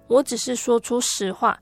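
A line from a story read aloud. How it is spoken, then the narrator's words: Low, firm voice. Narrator (Chinese): 丽丽也压低声音，并且语气坚定地回答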